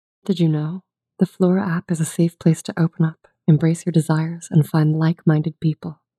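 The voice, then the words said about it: Sultry female voice. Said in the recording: “do a sultry female voice”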